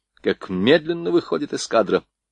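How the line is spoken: Irritated remark. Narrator (Russian): заметил раздраженно Макаров

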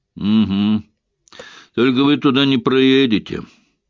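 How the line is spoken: Gloomy announcement. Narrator (Russian): мрачно объявил полицейский

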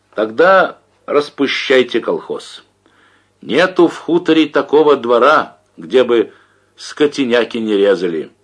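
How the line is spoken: Shouting. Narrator (Russian): крикнул Борщев

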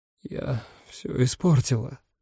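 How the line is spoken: Hoarse speech. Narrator (Russian): хрипло проговорила

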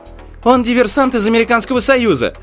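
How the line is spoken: Young woman's sudden cry. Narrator (Russian): вскрикнула молодая девушка

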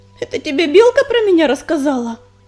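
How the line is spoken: Timid babble. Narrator (Russian): пролепетала она

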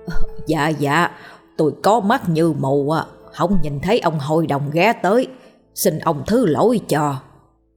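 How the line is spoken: Flustered, hurried apology. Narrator (Vietnamese): ông Bảy cuống cuồng, rối rít

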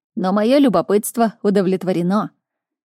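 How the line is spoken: Irritated growl. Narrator (Russian): Солдат раздраженно рыкнул

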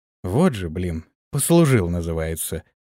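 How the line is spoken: Upset sigh. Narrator (Russian): огорченно вздохнул Антон

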